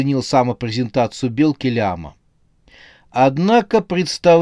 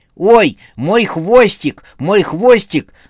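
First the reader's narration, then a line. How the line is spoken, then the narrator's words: Panicked squirrel yelling. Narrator (Russian): заорала белка-детектив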